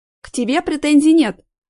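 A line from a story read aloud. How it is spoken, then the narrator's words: Sharp reply. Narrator (Russian): резко ответила Жанна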